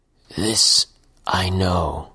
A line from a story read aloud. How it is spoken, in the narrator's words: mumbled the man, making a great effort to speak as if he'd forgotten the skill